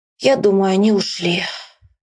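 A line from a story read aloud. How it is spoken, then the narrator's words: Boy, heavy sigh. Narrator (Russian): Мальчик опять тяжело вздохнул и сказал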